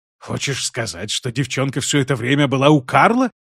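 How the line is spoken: Hissed. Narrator (Russian): прошипел Оттон

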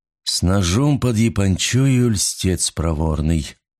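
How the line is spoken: Singsong chant. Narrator (Russian): нараспев произнес Уиллоби

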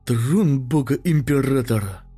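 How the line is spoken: Breathless exclamation. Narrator (Russian): выдохнул чернорабочий

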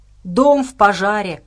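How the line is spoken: Growl. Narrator (Russian): прорычал он

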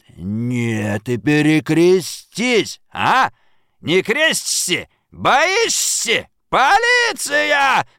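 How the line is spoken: Yell. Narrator (Russian): заорал он

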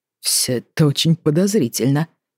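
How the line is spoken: Muttering. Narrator (Russian): пробормотал он

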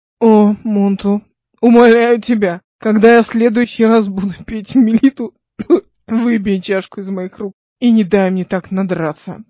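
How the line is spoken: Moaning. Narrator (Russian): простонал

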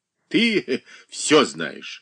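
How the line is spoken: Laughing. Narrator (Russian): засмеялся сын

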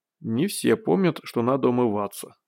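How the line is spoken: Mutter. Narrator (Russian): пробормотал Борис

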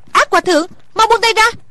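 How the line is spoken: Terrified cry. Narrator (Vietnamese): Thủy Sinh cả sợ kêu lên

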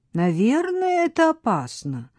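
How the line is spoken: Doubtful drawl. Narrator (Russian): с сомнением в голосе протянула Пип

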